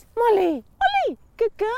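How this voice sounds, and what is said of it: High-pitched, raised-intonation dog-calling voice. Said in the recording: “just a little slight intonation raise ... you're right about the pitch ... When you go high ... doing the funny voice”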